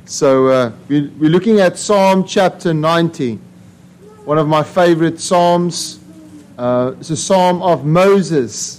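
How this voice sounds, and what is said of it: Noticeably different accent. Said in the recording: “my accent's a bit different. You can hear”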